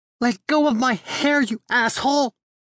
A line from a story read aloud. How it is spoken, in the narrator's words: She screams